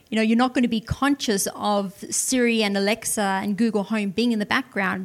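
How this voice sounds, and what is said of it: Speaks with an accent. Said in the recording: “Never understands my accent.”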